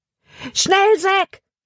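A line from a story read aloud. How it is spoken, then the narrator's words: Shouted. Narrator (German): schrie er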